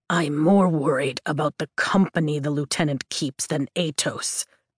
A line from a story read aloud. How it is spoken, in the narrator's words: Taryn growls